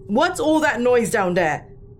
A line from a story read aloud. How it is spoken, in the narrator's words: My dad thundered